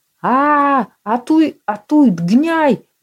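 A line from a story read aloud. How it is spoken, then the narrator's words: Hoarse men yelling. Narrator (Russian): Завопили сзади хриплые мужские глотки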